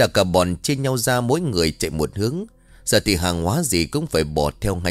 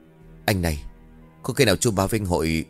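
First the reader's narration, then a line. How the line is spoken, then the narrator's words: Worried whisper. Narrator (Vietnamese): Cả bọn lo lắng, một tin thì thầm hỏi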